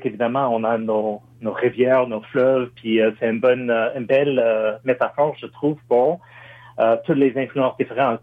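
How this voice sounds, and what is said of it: American accent speaking French. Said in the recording (French): “moi, je suis un Américain ... Mais une évidence avec mon accent”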